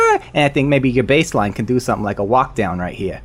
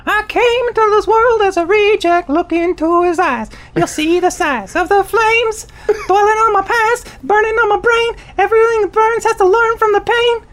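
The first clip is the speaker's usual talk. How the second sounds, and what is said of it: Singing in a high voice. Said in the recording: “you gotta sing in a high voice.”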